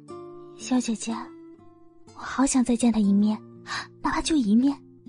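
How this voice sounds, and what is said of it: Soft murmuring to oneself. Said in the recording (Chinese): “小声的喃喃自语”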